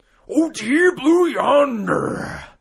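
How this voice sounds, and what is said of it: Macho Man Randy Savage impression. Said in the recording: “he wants it read in a Macho Man Randy Savage accent ... You actually might have it”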